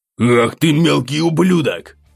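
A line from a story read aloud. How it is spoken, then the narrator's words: Man growling. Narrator (Russian): зарычал выбежавший следом мужик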